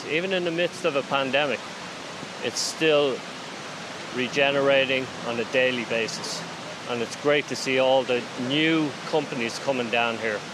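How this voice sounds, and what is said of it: Slight Irish accent. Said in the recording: “your slight accent ... You're from Dublin.”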